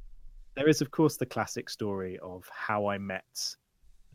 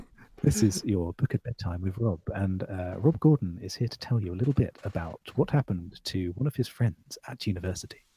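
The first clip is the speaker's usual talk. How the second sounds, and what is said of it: Intimate bedtime-story radio narrator voice. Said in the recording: “that intimate voice? ... Yeah, the Radio 4 voice. It's your book at bedtime.”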